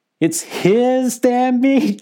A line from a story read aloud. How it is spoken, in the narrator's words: she cackled